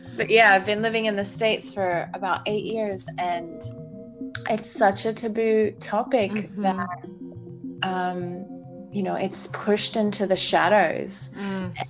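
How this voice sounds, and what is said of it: Australian accent. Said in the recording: “I'm from Australia, if you're curious about my accent ... I love your accent.”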